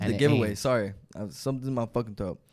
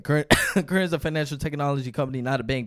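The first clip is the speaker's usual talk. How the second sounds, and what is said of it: Very fast rushed reading. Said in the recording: “Now I got to read this fast.”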